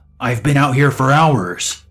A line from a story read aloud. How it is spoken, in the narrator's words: she shouts, pretty angrily for someone who's asking for a favor